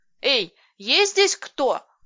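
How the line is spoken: Shout. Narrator (Russian): крикнула я

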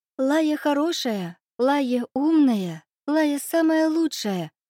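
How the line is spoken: Thin little voice. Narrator (Russian): тонким голоском сообщила бабочка

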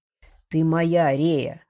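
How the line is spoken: Hoarse. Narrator (Russian): хрипло произнес он

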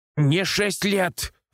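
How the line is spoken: Muffled shout from wardrobe. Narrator (Russian): выкрикнул из недр шкафа Владик

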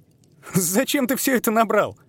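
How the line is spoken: Laughing. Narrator (Russian): Засмеялся Тим

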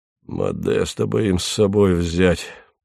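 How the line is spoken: Muttering. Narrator (Russian): пробормотал он

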